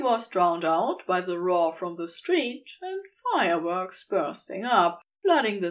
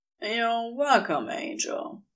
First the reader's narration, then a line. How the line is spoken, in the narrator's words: murmured